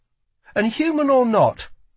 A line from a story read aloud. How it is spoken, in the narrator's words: added Lila sharply